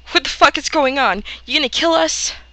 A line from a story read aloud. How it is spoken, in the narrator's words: Red Wings blurts out